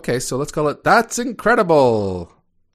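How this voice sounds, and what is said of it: Old-timey newscaster voice. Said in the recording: “do you sound like an old-timey news guy”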